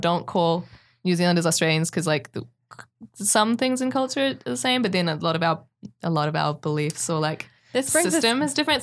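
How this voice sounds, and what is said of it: New Zealand accent. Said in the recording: “if you ever meet someone that has an accent that sounds like mine, just say New Zealanders”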